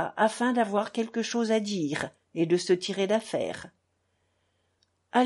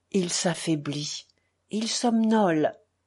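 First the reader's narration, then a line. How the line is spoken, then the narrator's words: Murmured into ear. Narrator (French): murmura le père Paisius à l'oreille d'Alyosha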